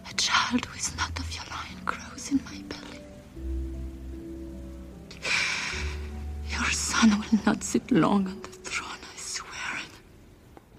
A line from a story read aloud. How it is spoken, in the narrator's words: she leans in really, really close to him, whispering in his ear